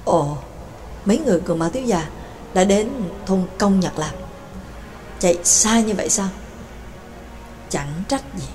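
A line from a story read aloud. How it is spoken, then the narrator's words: Muttering. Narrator (Vietnamese): Nhạc Dương lẩm bẩm nói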